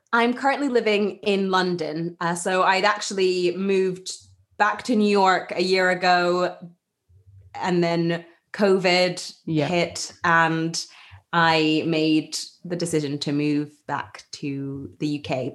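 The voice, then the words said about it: International mixed UK-US accent. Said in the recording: “that explains your accent to me ... it's almost like a combination of UK, US ... it's a sort of an international accent ... that's the international school accent”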